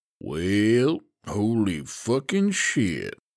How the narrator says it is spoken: he drawled

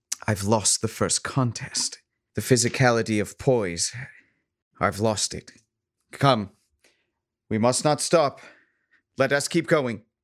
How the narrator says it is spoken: she says wearily

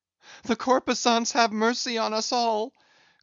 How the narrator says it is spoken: cried Stubb again

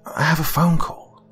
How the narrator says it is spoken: Daryl hissed through clenched teeth

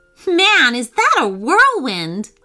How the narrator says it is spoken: Olive laughed

